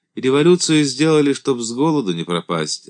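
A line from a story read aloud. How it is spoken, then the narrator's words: Explaining, then sighing. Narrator (Russian): объяснил Елизар и отчего-то вздохнул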